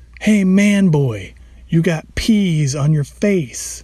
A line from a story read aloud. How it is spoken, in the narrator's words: we yelled loud enough to ward off any potential suitors